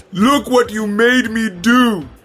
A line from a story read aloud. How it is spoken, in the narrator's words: Crank shouted